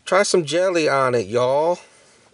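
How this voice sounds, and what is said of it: Poor put-on Southern accent. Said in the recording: “Did that accent sound better? ... No. ... Sorry, any Southern listeners. ... I'm bad at accents.”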